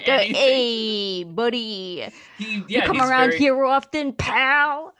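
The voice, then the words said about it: Put-on New York accent. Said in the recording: “he does kind of have like that ... New York kind of accent”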